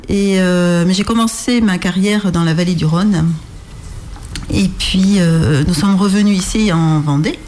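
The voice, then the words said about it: Slight Rhône regional French accent. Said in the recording (French): “On entend un petit accent. ... Du Rhône, qui nous vient du Rhône.”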